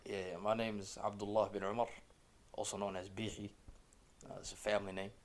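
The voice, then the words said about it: American accent. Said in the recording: “if you can't tell by his accent, he's from the United States”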